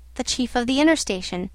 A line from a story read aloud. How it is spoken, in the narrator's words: he answered in a short tone